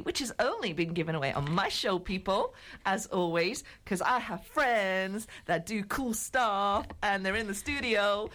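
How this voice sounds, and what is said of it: Unconvincing put-on American accent. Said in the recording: “Why am I giving this American accent, which doesn't even sound American?”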